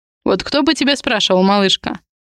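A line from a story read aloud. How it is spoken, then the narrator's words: Snorting. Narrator (Russian): хмыкнул Адриан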